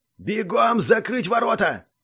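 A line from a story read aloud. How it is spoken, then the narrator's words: Commanding shout. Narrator (Russian): заорал Доминик командным голосом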